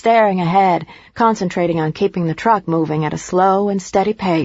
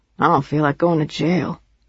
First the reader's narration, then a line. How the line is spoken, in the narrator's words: Sam said grimly